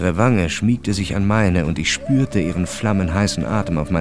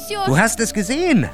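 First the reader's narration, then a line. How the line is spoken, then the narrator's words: Calling out. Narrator (German): rief sie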